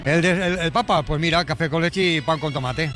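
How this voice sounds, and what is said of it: Put-on Catalan accent. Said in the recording (Spanish): “Me encanta que tenga el Papa acento catalán.”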